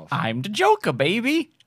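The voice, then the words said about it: Impression of the Joker. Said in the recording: “do an impression of the Joker”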